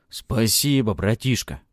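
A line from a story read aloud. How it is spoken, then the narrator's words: Grumbling. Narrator (Russian): проворчал Громила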